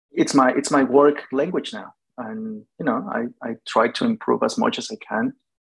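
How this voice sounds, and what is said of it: Spanish-accented English. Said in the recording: “my accent, the pronunciation of that will always be there ... two people whose first language is Spanish”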